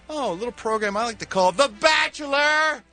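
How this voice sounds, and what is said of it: Yelling loudly. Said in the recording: “Why are you yelling that?”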